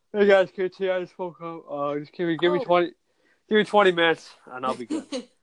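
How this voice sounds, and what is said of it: Acted groggy just-woke-up voice. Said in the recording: “I'll probably wake up like this... I'm pretty good at acting like this. I want to get tired.”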